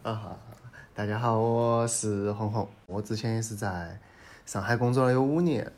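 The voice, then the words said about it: Sichuan dialect speech. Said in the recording (Chinese): “用重庆四川话录 ... 我也用四川话”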